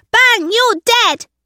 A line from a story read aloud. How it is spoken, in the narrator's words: cried Lucas